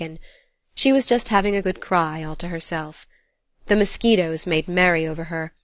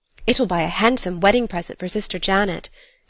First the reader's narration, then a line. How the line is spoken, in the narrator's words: exclaimed